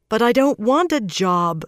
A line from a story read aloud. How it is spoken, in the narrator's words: Swan protested